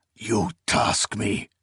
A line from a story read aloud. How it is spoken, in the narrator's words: he hissed under his breath